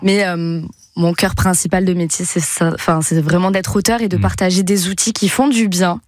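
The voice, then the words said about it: Slight Toulouse French accent. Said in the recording (French): “je suis toulousaine, je crois que ça s'entend à l'accent ou pas ? ... Un petit peu.”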